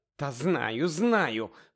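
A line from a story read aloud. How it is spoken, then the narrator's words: Groan. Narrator (Ukrainian): простогнала місіс Уізлі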